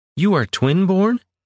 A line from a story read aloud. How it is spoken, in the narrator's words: Juliana blurted